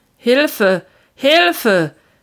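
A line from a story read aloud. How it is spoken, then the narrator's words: Injured man calling out. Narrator (German): rief der verletzte Mann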